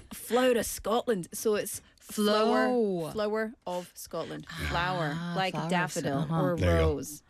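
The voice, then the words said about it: Scottish accent. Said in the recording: “my fellow Scottish countrymen and women... Flower, that's my accent.”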